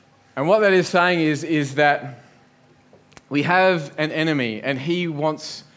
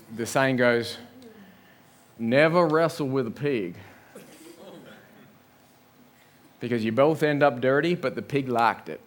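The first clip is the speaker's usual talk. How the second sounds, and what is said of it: Put-on Southern US country accent. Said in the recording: “I can't really do very good accents ... say this line with a sort of a southern country accent ... So this is my best southern country accent.”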